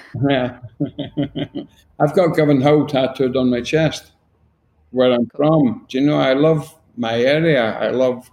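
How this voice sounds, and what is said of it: Glaswegian Scottish accent. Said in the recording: “I'm a very, very proud Glaswegian ... the slight change in my accent”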